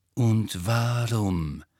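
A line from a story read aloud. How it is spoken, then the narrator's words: Slow. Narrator (German): sagte Snape langsam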